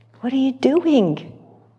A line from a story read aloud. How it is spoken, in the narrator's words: cried the layman